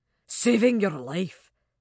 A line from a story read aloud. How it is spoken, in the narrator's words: he said grimly